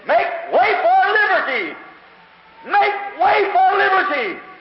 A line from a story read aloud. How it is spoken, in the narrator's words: he screamed